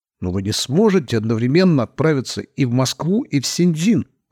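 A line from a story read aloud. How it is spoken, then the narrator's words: Exclaiming. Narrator (Russian): воскликнул мистер Фицрой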